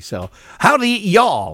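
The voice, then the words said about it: Put-on Texan accent. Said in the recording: “my my Texan impression”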